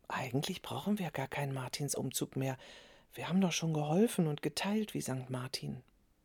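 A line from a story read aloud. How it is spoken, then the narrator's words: Whispering. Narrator (German): Clara flüsterte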